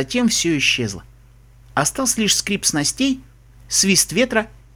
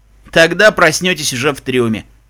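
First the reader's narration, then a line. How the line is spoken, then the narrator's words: Smirking grunt. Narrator (Russian): хмыкнул капитан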